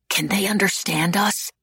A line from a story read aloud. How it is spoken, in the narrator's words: whispered anxiously